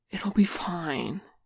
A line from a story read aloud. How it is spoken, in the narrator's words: he said through a gasp